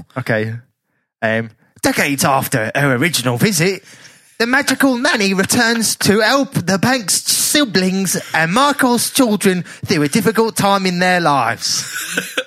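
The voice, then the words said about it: Deliberately awful Dick Van Dyke Cockney. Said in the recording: “Cockney or a variant on Cockney... Old Dick Van Dyke... a Cockney accent,⟧ but with a bit of a Dick Van Dyke twist... make it bloody awful”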